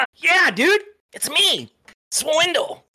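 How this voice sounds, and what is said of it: Put-on cartoon character voice. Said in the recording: “do my Swiffer voice.”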